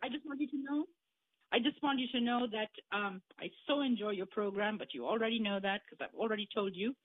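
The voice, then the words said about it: Indian English accent. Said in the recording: “where's that accent coming from ... I am originally from India.”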